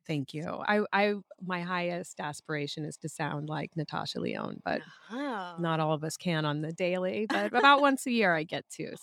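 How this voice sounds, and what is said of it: Raspy, hoarse voice. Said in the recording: “raspy co-host... The best thing about getting a cold is getting this sexy voice... You really rock a good raspy voice”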